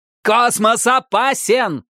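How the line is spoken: Barked. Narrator (Russian): рявкнул Митч

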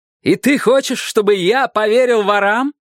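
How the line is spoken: Shout. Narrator (Russian): крикнул Дик

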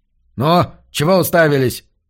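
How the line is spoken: Barked at workers. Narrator (Russian): рявкнул он чернорабочим

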